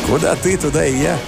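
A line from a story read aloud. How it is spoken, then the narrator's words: Husky, slow, lazy female voice. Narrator (Russian): Голос у нее был хрипловатый, слова она произносила медленно, с ленцой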